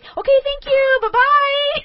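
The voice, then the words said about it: Valley girl customer service voice. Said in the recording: “she is total, like, white girl from, like, the valley”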